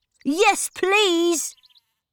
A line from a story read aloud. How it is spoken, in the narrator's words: cried Peter